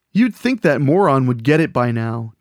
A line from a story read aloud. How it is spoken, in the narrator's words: Jason said